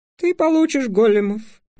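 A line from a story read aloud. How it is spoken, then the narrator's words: Sighing. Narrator (Russian): вздохнул Понедельник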